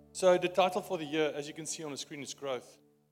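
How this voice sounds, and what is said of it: Afrikaans accent. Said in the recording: “my Afrikaans accent”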